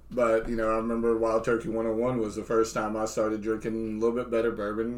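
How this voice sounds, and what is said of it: Kentucky Southern American accent. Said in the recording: “I'm about as Kentucky as you come ... a little bit of accent all over the place”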